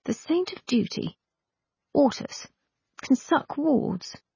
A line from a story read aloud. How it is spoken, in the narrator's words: You said feebly